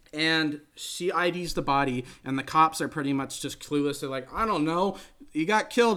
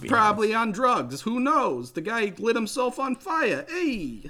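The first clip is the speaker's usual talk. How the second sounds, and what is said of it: Stereotypical movie cop accent. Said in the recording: “they sound like that ... that's the accent that every cop in a movie”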